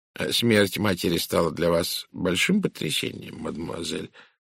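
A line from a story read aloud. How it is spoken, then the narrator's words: Soft question. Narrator (Russian): мягко спросил Пуаро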